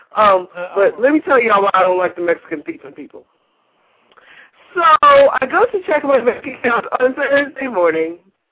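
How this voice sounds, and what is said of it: West Virginia accent. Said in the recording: “I hear all these accents ... I'm from West Virginia, so obviously. I don't talk like anybody else.”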